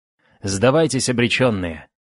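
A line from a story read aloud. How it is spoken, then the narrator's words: Haughty shout. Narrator (Russian): надменно крикнул им предводитель деревенских обитателей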